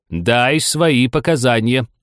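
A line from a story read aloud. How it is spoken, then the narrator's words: Stern king's repetition. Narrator (Russian): грозно повторил король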